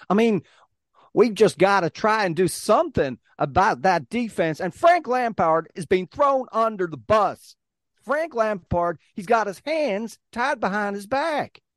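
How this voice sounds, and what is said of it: Put-on Texan accent. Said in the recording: “all I can hear is the dulcet tones of a Texan accent.”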